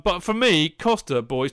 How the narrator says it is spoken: Tony laughed first

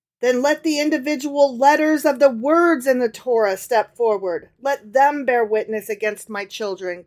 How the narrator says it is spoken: cried Abraham

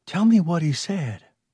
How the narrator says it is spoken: Mike Foster whispered

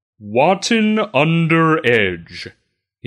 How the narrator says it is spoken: says in his sonorous voice

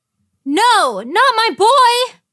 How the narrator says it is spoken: Inara shouting

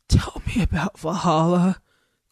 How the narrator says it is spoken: Goldie said in his treble rasp

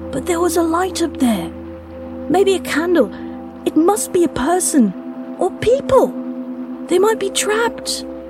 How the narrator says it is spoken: Luca pleaded as much with his tone as his words

